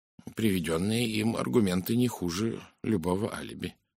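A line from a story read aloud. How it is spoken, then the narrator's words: Muttering. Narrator (Russian): пробормотал Пуаро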